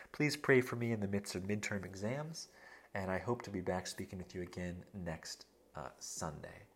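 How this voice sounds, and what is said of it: Tired, worn-out voice. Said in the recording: “I don't know if you can hear it in my voice, but I'm pretty worn out.”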